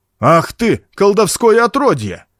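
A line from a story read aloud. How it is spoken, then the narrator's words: Shouted. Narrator (Russian): крикнул он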